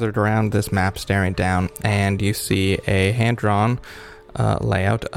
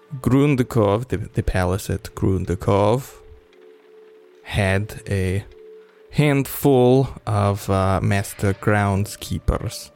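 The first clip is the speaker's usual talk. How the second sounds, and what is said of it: Attempted Russian accent. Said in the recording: “I don't know how to do a Russian accent in some words ... I'm trying not to go German ... Oh, that's a good Mother Russia.”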